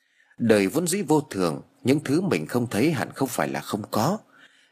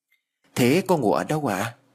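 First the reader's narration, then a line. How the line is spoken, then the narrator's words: Soft question. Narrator (Vietnamese): Tôi khẽ hỏi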